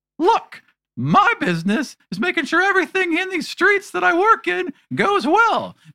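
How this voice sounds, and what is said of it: Higher-pitched child character voice. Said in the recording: “did his voice get higher? Yeah. His voice got higher, right?”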